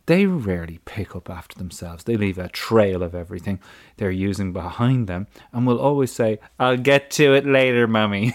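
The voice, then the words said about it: Put-on Maltese accent while reading. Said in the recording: “I don't know what a Maltese accent sounds like, but that's how I'm hearing this.”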